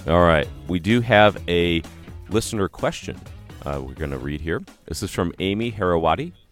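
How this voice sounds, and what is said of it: Groggy, early-morning voice. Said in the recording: “my voice is still a bit groggy”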